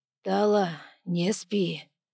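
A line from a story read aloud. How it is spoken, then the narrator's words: Muffled velvety husky voice. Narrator (Russian): Сквозь вату пробрался бархатисто-хрипловатый голос зерга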